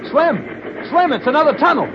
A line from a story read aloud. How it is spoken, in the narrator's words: called out